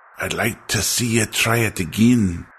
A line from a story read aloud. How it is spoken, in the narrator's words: he wheezed in challenge